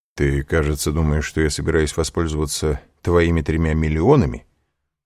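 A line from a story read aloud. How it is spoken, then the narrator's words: Plain. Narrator (Russian): сказал Данглар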